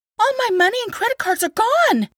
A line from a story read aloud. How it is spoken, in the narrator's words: Kat exclaimed